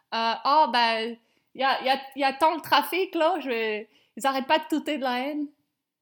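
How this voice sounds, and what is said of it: Put-on accent. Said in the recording (French): “avec l'accent, j'avais pas compris, j'ai entendu lane.”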